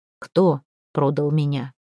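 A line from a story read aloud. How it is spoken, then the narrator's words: Quiet. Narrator (Russian): спросил негромко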